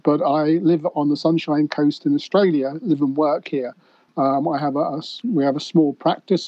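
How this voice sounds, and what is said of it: British accent. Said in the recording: “my accent is a British accent”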